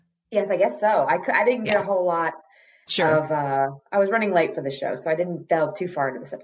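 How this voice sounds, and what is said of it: Usual voice. Nothing is said of it.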